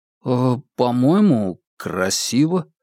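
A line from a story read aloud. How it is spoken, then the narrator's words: Uncertain voice. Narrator (Russian): неуверенно подал голос Стефан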